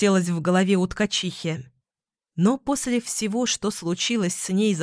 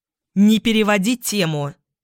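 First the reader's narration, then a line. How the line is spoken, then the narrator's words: Barked. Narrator (Russian): рявкнула Теона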